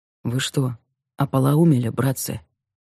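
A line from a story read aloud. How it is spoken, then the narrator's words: Quiet. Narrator (Russian): тихо сказал он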